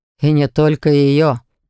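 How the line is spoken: Wry grunt. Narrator (Russian): хмыкнул я

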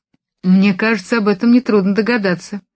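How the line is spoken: Dry reply. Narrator (Russian): сухо отвечала Джулия

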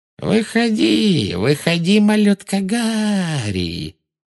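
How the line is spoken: Thin mocking singsong, echoing. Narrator (Russian): пропела она тонким издевательским голоском, и ее слова отразились эхом от начищенного паркета

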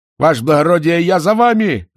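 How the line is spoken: Excited shout. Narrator (Russian): закричал он, от волнения

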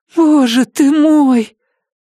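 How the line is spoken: Muffled moan into microphone. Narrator (Russian): Она прикрыла руками рот, но Джейкобс успел поднести микрофон прямо к ее губам, и все услышали, как она простонала

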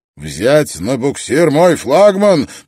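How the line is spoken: Outraged roar. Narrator (Russian): проревел адмирал, побагровев от возмущения

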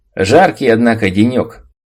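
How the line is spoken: Loud echoing voice. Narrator (Russian): Мой голос громко прозвучал в этом каменном каньоне

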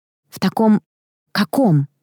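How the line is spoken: Breathless. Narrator (Russian): выдохнула я

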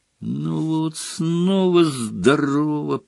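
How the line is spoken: Groaning. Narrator (Russian): простонал Гарри

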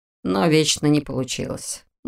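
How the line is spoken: Grumbling. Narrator (Russian): буркнул Дэнк

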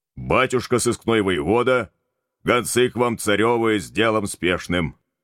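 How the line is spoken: Businesslike shout from entrance hall. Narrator (Russian): Деловым тоном профессионального секретаря проорал из сеней верный Митька

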